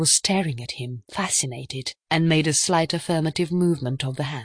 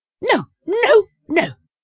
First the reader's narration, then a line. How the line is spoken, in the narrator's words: cried Miss Howard wildly